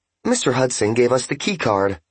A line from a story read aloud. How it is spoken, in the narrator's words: said the woman in a pleasant, friendly voice